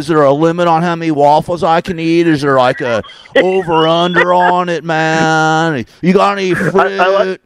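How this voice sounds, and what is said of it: Southern California Valley accent. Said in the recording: “That's a perfect southern ... you've got the accent to match ... I grew up in the valley, man. I grew up in Tarzana ... that's not a fake voice, man. That's me”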